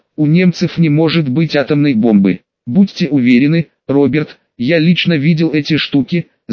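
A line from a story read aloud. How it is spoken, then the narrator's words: Confused, forced out. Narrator (Russian): в растерянности выдавил из себя Оппенгеймер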